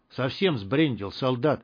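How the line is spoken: Whispered reply. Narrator (Russian): отвечал ему другой голос, тоже шепотом

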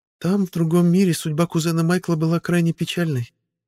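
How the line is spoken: Sigh. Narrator (Russian): вздохнула Виктория

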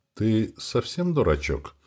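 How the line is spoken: Gentle calm question. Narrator (Russian): спросил я Сеньку ласково, без крика и мата

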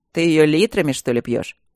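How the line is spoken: Irritated. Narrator (Russian): раздраженно

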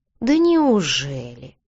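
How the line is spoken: Drawling. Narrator (Russian): протянул мужчина

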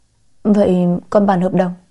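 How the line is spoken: Stammering hesitant question. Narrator (Vietnamese): Lâm Sơ Nguyệt ấp úng mãi mới hỏi được

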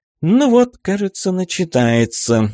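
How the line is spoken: Sigh. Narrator (Russian): вздохнула Джессика

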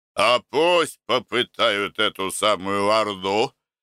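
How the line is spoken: Old man laughing. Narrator (Russian): смеялся старый коваль

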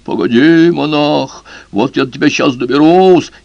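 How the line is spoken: Dead man, terrible voice. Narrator (Russian): покойник страшным голосом говорит

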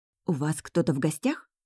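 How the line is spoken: Lowered to whisper. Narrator (Russian): Понижаю голос до шепота

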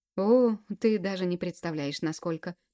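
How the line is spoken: Laughing. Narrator (Russian): посмеялся

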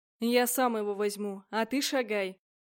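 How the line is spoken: Rough man's growl. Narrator (Russian): рыкнул мужик

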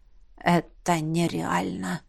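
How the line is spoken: Hoarse voice. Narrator (Russian): раздался хриплый голос Ингварда

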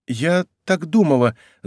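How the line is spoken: Stammering reply. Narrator (Russian): запинаясь, отвечала девушка

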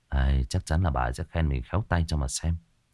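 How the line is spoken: Pleased muttering. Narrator (Vietnamese): lẩm bẩm

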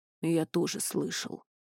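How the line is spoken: Deep bass voice. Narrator (Russian): пробасил Туч

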